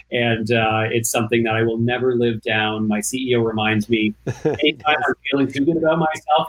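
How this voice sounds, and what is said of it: Canadian accent. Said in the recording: “my accent ... I'm Canadian”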